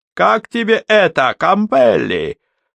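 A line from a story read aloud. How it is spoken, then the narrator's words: Triumphant shout. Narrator (Russian): торжествующе крикнул Рэмер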